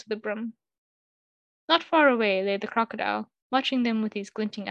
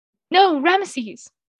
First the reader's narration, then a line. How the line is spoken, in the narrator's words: cried Khuenaten